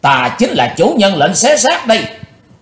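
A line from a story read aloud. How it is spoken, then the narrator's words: Vengeful shout. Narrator (Vietnamese): Chàng thét lên giọng quán thù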